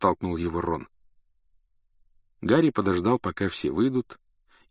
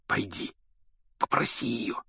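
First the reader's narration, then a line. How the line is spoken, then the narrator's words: Whispered. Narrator (Russian): шепнул Рон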